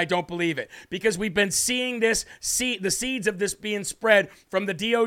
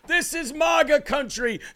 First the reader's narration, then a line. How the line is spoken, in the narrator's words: screamed the assailant